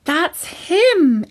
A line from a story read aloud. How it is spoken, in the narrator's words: exclaimed Katie